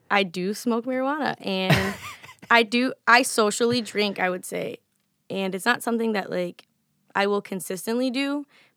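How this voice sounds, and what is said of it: Slightly raspy voice. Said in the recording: “my voice is always changing depending on how well I take care of myself. So today it's a little bit raspy,”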